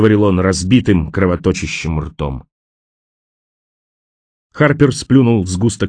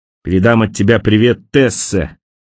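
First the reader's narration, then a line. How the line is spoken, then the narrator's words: Shout after someone. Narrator (Russian): крикнул он вслед Хелму, когда тот уже исчезал из виду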